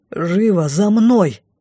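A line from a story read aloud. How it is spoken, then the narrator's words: Through gritted teeth. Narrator (Russian): процедил лорд Лайс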